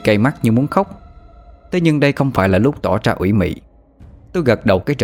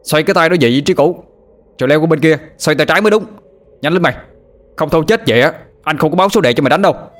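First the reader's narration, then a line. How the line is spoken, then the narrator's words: Shouting, not reproachful. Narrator (Vietnamese): Anh Thông quát lên, hình như không có ý trách móc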